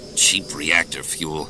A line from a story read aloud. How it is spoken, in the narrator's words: Han grumbled